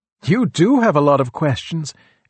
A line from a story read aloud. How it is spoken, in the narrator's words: exclaimed Bikuni Gotami